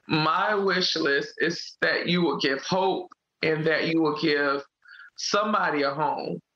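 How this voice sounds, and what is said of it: Emotional, tearful speech. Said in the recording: “I hate getting emotional about this”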